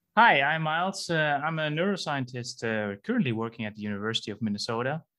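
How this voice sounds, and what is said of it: Dutch accent. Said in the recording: “as some of you may hear, I'm from the Netherlands ... your accent or your voice just is amazing”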